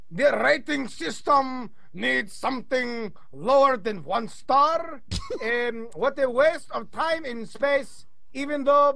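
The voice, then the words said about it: Put-on Russian accent. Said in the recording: “recommend an accent that I will read this one to Brian in? ... Russian. ... he does a good Sergey. Give me Sergey.”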